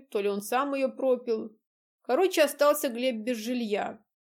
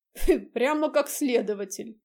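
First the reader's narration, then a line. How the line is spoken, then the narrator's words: Laughing. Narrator (Russian): дядя Митя рассмеялся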